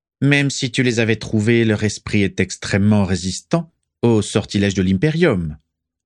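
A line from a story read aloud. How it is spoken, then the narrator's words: Added dryly. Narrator (French): ajouta sèchement Abraxas Malfoy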